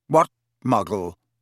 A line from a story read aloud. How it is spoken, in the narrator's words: said Riddle sharply